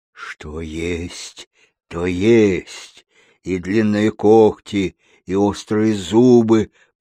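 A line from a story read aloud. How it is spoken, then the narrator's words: Deep bass voice. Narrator (Russian): подтвердил медведь глубоким басом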